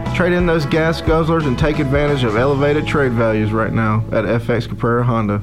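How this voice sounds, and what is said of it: Noticeable regional accent. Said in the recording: “I know my accent might throw you off a little bit”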